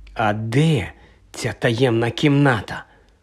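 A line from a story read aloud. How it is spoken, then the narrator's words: Whispered. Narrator (Ukrainian): прошепотів Гаррі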